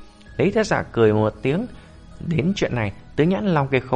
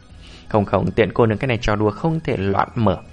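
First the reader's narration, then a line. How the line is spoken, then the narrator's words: Cold. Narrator (Vietnamese): Tiến vô song lạnh lùng nói ra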